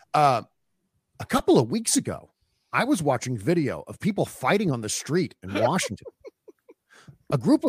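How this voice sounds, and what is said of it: Imitates another person's voice. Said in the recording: “you do a great Tucker Carlson impression ... read this in Tucker Carlson's voice ... do a Tucker voice ... it was so creepy”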